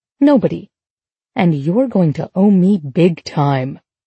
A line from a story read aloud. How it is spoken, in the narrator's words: growl under my breath